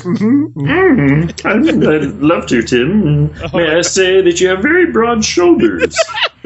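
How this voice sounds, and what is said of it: Impression of a former teacher. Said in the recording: “We're impersonating a former educator of ours”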